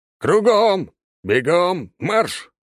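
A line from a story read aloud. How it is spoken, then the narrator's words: Barked command. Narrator (Russian): рявкнул я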